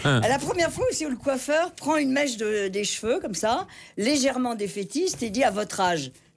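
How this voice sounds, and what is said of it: Cavaillon southern French accent. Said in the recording (French): “l'accent de... Oui, il est bien mon accent... On est sur un accent de Cavaillon”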